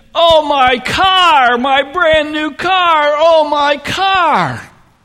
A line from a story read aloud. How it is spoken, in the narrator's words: he starts wailing